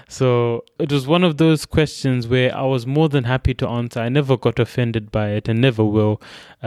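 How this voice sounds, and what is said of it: Zimbabwean accent. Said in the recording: “You've got a twang in your accent. ... I'm from Zimbabwe. My accent is my accent.”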